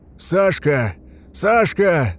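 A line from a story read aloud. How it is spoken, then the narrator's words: Shouting, swallowing words. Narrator (Russian): закричал Рух, проглатывая слова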